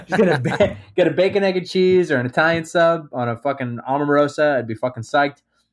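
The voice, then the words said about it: New Jersey accent. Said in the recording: “my Jersey accent to come out”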